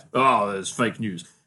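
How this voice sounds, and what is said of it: Poor imitation of another person's voice. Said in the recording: “my worst Trump impression ever. It sounded more like Julia Gillard than Trump.”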